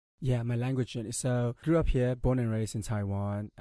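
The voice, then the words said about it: Slight Afrikaans-tinged English accent. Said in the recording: “a bit of an Afrikaans accent ... a bit of a Afrikaans-ish thing going on there”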